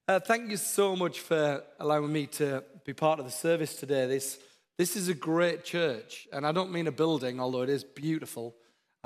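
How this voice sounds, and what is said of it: Northern English accent. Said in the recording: “My accent's not very Downton Abbey. I come from the north of England. We're a bit different up there.”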